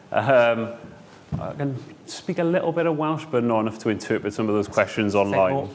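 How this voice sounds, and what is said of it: Welsh accent. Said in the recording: “you'll tell from the accent, I think the only reason I'm here is because I'm Welsh”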